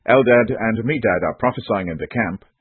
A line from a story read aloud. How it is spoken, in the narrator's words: a young man quickly told Moses